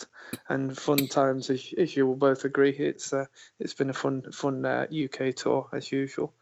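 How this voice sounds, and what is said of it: Creaky, worn voice. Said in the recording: “My voice is a bit creaky”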